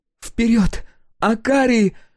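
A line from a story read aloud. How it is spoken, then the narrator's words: Exclamation. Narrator (Russian): воскликнула Брин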